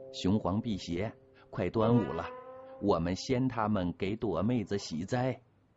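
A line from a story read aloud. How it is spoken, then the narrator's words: Cheerful, lightening the mood. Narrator (Chinese): 唐儿喜笑颜开，尽力调节着气氛说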